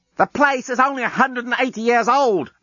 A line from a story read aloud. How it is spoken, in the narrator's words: Lucy shouted back down